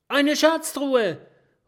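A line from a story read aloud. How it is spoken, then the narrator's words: Excited porcupine calling. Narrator (German): ruft das Stachelschwein begeistert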